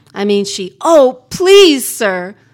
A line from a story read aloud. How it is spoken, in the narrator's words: yelled Solomon